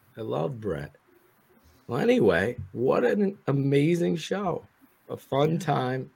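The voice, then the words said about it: Hoarse, fading voice. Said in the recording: “I'm losing my voice, as you could tell. I had a bunch of coughing episodes.”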